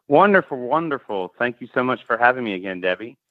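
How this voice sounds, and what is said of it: Southern US accent, Alabama. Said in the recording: “It's good to hear that Tennessee accent. ... Or is it Alabama? ... It's Alabama.”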